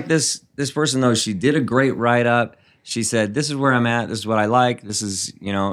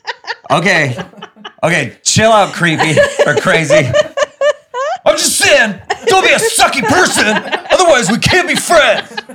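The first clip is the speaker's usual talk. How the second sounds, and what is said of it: Yelling loudly. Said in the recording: “sorry I'm yelling,”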